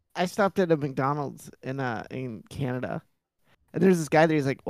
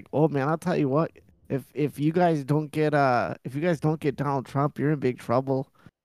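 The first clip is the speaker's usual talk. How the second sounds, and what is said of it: Put-on Canadian accent. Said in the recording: “Canadian accent”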